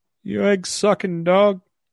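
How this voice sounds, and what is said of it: Terry Funk impression. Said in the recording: “Terry Funk sent a message out to everybody that's imitating him on Twitter.”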